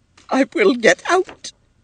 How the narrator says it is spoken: she sobbed

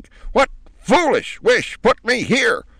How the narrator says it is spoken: she demanded at the top of her voice

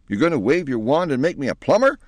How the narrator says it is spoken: cried Penelope in a relieved tone

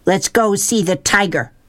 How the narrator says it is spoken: shouted

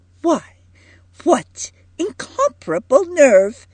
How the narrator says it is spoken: exclaimed Edith

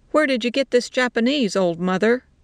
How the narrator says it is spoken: they shouted

